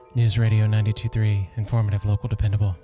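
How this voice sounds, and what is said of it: Speaking low and mellow. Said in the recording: “Why am I talking so low? ... we're kind of on a mellow tip this morning”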